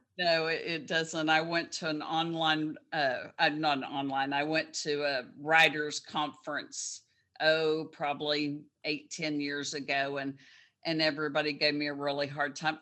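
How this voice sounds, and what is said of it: Texas accent. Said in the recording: “I love your Texas accent”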